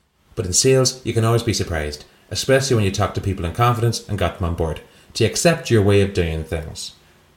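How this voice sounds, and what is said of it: Bad put-on Irish accent. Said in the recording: “in an Irish accent ... Was that the worst Irish accent anyone's ever heard? I've never heard you do a worse one.”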